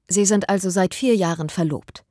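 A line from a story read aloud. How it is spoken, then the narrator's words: Firm woman's voice. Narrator (German): sagte sie mit fester Stimme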